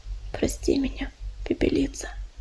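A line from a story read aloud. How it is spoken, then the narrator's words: Barely audible whisper. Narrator (Russian): ее еле слышный шепот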